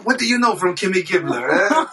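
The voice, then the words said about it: Put-on Jewish accent, carpet-salesman voice. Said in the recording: “Can you do a Jewish Bob Saget impression? ... He just turned to a carpet salesman.”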